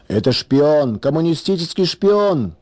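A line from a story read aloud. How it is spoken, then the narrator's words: Furious shouting crowd. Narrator (Russian): кричали некоторые яростные защитники православия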